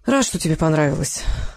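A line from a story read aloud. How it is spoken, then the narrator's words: Sigh. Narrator (Russian): вздохнул Федор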